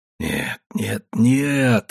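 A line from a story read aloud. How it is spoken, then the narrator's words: Feverish mumbling. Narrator (Russian): бормотал я лихорадочно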